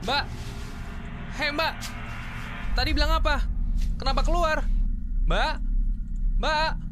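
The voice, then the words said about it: Shouting loudly. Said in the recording (Indonesian): “Kenapa teriak-teriak?”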